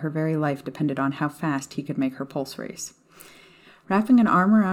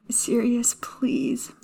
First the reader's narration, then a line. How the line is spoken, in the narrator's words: Maya whimpered